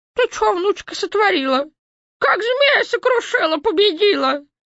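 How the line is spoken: Old woman babbling. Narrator (Russian): бабка-ёшка пролепетала

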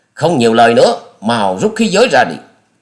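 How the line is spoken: Roaring. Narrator (Vietnamese): Gã đó gầm lên nói

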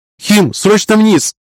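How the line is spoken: Loud shout. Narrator (Russian): закричала Белова в голос

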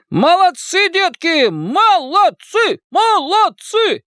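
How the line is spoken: Shouting. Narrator (Russian): Коп закричал

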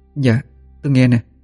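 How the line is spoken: Trembling voice. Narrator (Vietnamese): Cô run run nói

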